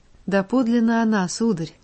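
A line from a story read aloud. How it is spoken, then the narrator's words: Most sincere tone. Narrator (Russian): самым искренним тоном подтверждала Вихрова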